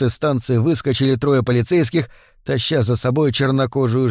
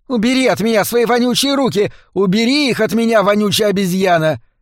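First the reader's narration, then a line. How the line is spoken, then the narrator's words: Muffled shouting from inside. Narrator (Russian): Внутри станции кто-то закричал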